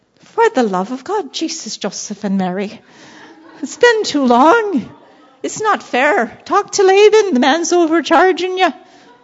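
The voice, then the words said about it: Put-on Irish accent. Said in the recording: “I'm going into my Irish accent”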